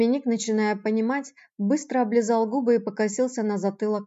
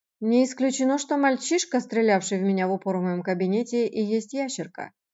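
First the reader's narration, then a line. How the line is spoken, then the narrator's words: Deliberately calm, cold. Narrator (Russian): нарочито спокойно, холодно бросил Еж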